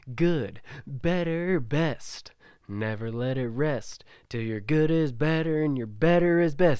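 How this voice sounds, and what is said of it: Folksy twang, Mark Twain style. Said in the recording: “a little bit of a twang. ... Give us some Mark. Give us some Mark Twain.”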